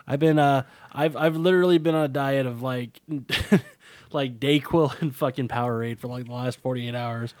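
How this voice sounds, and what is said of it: Strained, sniffly sick-sounding voice. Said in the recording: “I'm a little sick ... I just got a cough, and like my voice is a little strained right now ... I'm a little sniffly too”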